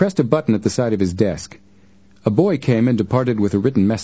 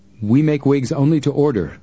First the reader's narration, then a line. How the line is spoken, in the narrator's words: the manager said